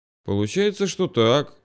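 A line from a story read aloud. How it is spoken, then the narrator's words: Mumbling. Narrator (Russian): вновь промямлил я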